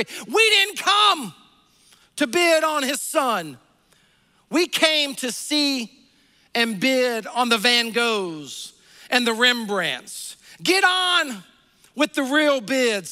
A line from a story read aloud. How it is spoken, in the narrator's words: yelled